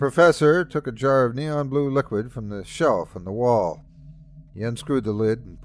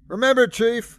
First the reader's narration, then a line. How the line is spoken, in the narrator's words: shouted the professor, with a wild look on his face